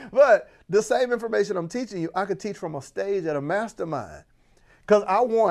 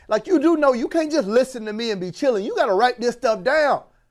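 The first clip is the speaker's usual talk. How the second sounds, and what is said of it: Raised, louder voice. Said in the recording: “why am I raising my voice? I don't know. It just feels good.”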